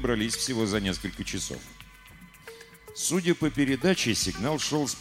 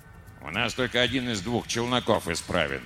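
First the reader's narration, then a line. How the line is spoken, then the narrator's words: Grumbling. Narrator (Russian): пробурчал инженер Ри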